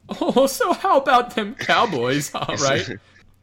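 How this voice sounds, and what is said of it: Posh proper English-style voice. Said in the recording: “we didn't do any English accents there... We just did, like, proper voice... I can just, like, do proper boy voice.”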